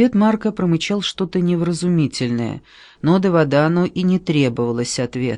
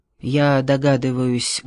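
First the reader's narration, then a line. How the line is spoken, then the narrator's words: Muffled. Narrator (Russian): глухо сказал Марко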